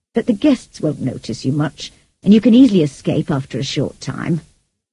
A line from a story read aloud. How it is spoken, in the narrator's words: said the old lady kindly